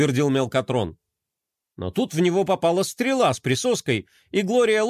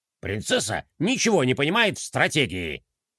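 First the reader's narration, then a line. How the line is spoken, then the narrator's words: Snorting. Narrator (Russian): хмыкнул Декроль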